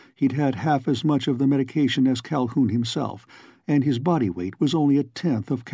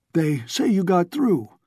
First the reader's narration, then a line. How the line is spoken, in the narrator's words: panted a tall man